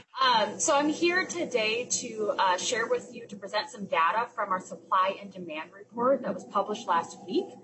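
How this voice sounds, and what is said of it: Louder, projecting teacher voice. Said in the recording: “speak up a little louder ... I'll use my teacher voice”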